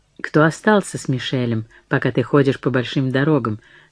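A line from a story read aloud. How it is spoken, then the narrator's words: Indifferent voice. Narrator (Russian): спросил он безразличным голосом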